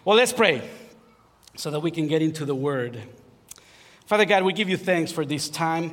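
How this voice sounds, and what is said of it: Strong Spanish-influenced English accent. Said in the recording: “if you don't understand my accent, sometimes my wife understands even the words that no one can understand”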